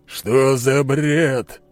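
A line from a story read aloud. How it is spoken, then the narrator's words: Growling. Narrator (Russian): прорычал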